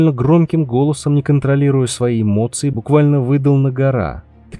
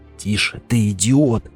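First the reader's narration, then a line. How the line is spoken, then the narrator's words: Hissed. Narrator (Russian): прошипел он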